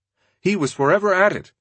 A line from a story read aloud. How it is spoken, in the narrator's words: said one classmate